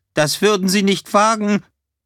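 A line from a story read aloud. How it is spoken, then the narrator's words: Called out. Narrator (German): Greenman rief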